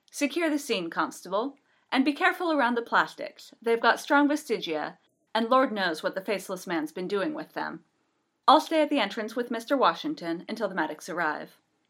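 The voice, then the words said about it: Posh BBC English accent. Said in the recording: “in an honest-to-God BBC posh accent.”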